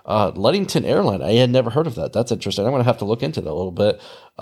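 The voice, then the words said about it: Nasal Midwestern American accent. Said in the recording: “This nasally accent that you're listening to doesn't come from the East Coast. It comes from the Midwest.”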